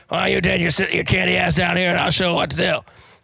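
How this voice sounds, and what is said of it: Imitates another person's voice. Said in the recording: “my Ed Orgeron voice”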